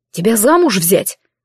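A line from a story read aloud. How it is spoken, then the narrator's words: Astonished scoff. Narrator (Russian): хмыкнул неожиданно Гидеон, явно до глубины души пораженный моей наглостью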